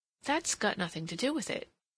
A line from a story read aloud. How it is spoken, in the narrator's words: Cassandra exclaimed indignantly